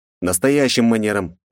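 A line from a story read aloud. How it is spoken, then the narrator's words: Correcting. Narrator (Russian): поправил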